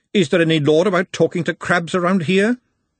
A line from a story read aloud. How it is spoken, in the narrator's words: she snapped